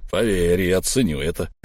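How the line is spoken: Through gritted teeth. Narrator (Russian): процедил Буран

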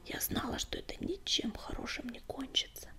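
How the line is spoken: Bitter, sorrowful whisper. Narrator (Russian): прошептала она, и в голосе ее не было ни гнева, ни осуждения, только горечь и тоска

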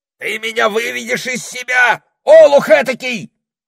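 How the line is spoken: Shouting parrot. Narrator (Russian): закричал попугай

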